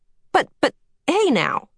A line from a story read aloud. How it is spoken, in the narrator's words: Calvin sputtered